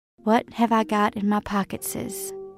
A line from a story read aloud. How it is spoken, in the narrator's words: I said softly